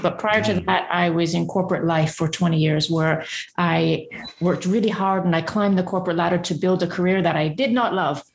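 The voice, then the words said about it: Mixed British and Canadian accent. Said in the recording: “So we've got a multidimensional accent that spans a ping pong journey to and from and back to the UK.”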